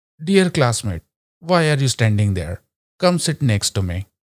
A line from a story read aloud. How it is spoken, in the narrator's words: said his father